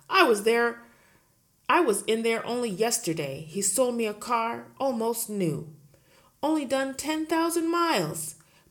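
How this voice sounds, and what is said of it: Barking, shouting woman's voice. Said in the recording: “Miss Trunchbull barked. She hardly ever spoke in a normal voice. She either barked or shouted.”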